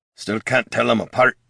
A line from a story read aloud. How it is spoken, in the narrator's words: he muttered